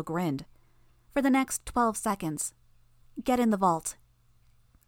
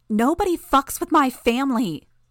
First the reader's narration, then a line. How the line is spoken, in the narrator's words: shouted